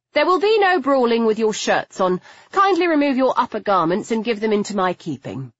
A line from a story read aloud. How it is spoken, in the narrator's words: I said sharply